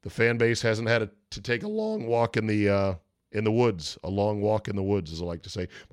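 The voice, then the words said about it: Voice cracks, recovering from sore throat. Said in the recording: “My voice cracked right there ... coming around on this cold ... I had a sore throat”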